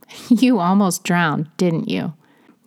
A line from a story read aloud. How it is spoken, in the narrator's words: he said with a slight chuckle